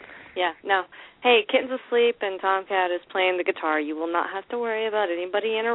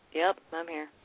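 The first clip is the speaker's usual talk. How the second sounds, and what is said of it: Flat, unenthusiastic delivery. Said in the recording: “don't you sound enthusiastic”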